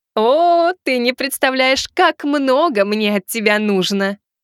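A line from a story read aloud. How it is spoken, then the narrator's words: Monster answering, laughing. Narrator (Russian): Ответило чудовище, рассмеялась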